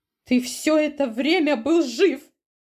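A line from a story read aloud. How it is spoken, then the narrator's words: Cried out. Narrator (Russian): выкрикнула Перова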